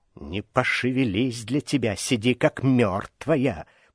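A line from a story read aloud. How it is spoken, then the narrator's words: Snakelike hiss. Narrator (Russian): прошипела по-змеиному Аграфена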